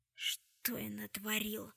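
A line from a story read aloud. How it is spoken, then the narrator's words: Whisper. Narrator (Russian): прошептал Уилл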